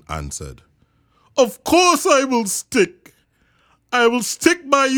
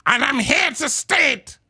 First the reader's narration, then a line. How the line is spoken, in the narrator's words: snapped the big kangaroo